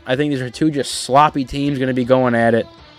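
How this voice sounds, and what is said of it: Out of breath, exhausted voice. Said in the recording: “I'm out of breath. I'm exhausted.”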